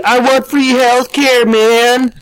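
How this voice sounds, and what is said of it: Stoner hippie voice. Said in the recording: “that's a really good Cheech and Chong impersonation ... That was actually more of a South Park hippie attempt”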